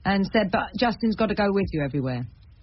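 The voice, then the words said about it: Imitated Lancashire accent. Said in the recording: “He's from Lancashire, my dad. Sorry about the accent, Dad.”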